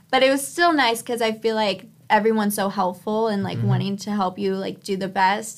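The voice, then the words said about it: Mild California Valley girl accent. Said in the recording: “I have this California girl accent, like, the Valley girl ... It's not that strong.”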